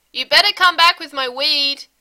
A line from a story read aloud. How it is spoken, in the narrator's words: Deweese shouts over the sound of the screen door banging shut